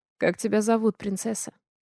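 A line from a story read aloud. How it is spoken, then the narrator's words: Soft familiar question. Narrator (Russian): спрашивает мягко, тем самым голосом, которым когда-то говорил со мной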